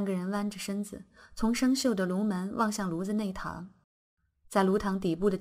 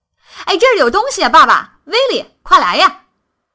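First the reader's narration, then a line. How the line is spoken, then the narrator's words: Shouting. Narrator (Chinese): 他立刻嚷了起来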